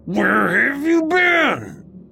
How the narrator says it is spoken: he asked again, half growling and half crying

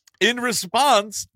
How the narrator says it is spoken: the pisser yelled back

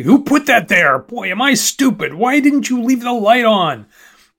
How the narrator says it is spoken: yelling

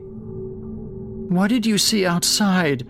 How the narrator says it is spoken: Jake asked between sobs

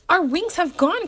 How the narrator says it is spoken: cried Mr

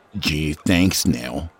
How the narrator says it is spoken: muttered

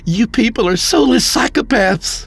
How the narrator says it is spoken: Mark shouted

